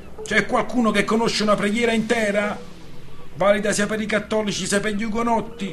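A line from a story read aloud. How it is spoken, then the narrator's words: Gloomy shout to crew. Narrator (Italian): Lorenzio, torbo, urlò alla ciurma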